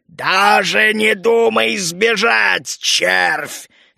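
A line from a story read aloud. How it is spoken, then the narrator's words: Menacing. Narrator (Russian): грозно прозвучало у меня в голове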